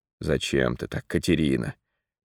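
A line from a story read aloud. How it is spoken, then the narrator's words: Sad question. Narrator (Russian): печально спросил сыщик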